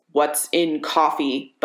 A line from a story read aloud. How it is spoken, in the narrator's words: Bucky snarls